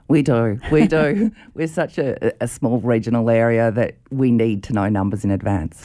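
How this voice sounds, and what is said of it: Polished radio-style voice. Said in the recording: “Great radio voice”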